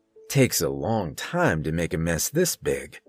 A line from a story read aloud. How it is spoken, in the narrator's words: Kurt muttered